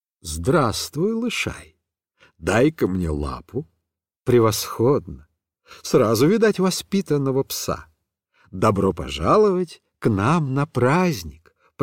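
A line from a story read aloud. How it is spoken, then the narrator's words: Gentle affectionate voice. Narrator (Russian): проговорил святой Франциск таким ласковым голосом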